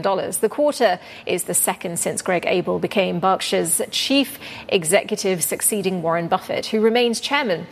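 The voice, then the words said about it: English accent. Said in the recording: “It's too English, my accent.”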